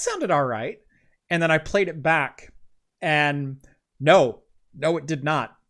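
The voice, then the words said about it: Voice slightly lower than normal. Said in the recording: “You can probably still hear a little bit. My voice is slightly lower than normal ... my voice was cracking and cutting out”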